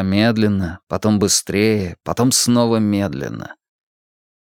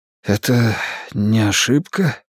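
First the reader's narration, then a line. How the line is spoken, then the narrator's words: Breathed out. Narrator (Russian): выдохнул я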